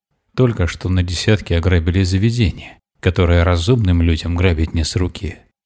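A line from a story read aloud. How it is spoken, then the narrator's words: Calm. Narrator (Russian): спокойно произнес Петр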